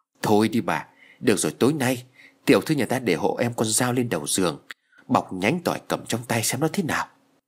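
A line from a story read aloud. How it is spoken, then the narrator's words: Trembling reply. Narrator (Vietnamese): Hà run rẩy đáp lại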